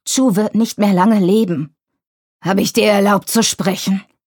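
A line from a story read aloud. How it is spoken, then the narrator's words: Growled. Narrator (German): knurrte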